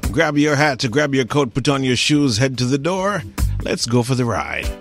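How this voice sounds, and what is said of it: Caribbean accent, rich voice. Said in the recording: “He just had this incredible voice, this, you know, great accent from the Caribbean”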